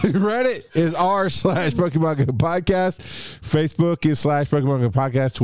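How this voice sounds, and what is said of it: Usual voice. Nothing is said of it.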